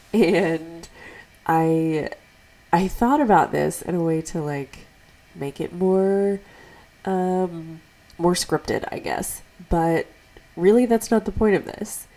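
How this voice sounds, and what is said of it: Congested voice from a cold. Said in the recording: “I have a bit of a cold... I'm sure you can tell by how I sound.”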